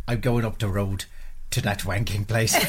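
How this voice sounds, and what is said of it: Put-on Northern Irish accent. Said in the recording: “Now say it in a Northern Irish accent.”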